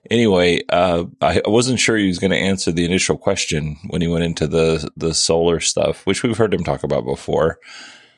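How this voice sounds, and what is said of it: Rough, gravelly morning voice. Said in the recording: “my voice sounds a little rough ... I just woke up, so my voice isn't quite warmed up yet. I feel like it's very gravelly.”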